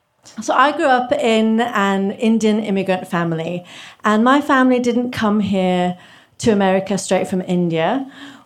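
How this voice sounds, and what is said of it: English accent. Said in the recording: “England, where I got my accent. It's not fake.”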